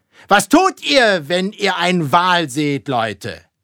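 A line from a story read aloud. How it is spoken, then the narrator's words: Sudden shout after pause. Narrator (German): hielt Ahab jählings inne und schrie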